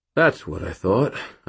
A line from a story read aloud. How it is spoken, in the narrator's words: I sighed